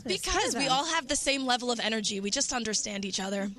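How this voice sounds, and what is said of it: Strained party girl voice. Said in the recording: “party girl voice ... I was screaming”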